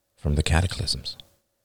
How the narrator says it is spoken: murmured David

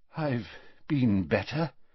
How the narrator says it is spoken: said Dumbledore weakly

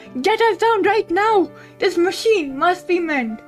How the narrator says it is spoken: He screamed out loud

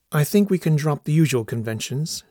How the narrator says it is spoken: said

